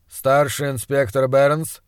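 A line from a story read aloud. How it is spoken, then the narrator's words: Dry reply. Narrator (Russian): сухо ответил доктор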